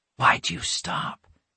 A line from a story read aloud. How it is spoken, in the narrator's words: Alex whispered